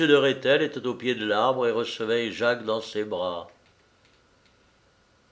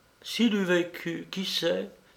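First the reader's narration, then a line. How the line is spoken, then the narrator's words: Murmured. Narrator (French): murmura Madame Rose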